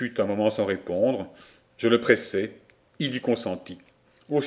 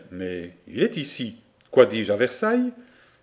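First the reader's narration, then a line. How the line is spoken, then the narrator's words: Inward, self-absorbed tone. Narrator (French): Il fut quelque temps sans répondre, puis me dit, mais d'un ton fort concentré en lui-même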